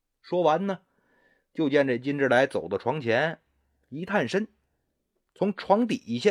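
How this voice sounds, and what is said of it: Usual voice. Nothing is said of it.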